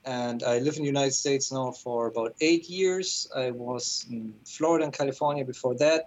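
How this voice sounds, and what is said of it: German accent. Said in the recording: “I'm originally from Germany, which explains my accent.”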